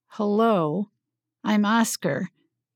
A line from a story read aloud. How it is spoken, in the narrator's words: repeated slowly